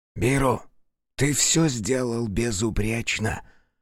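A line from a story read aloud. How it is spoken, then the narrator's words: Whisper in ear. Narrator (Russian): раздался шепот Хицу над его ухом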